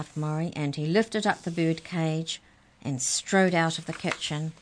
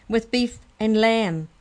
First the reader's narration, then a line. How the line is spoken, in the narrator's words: laughed Molly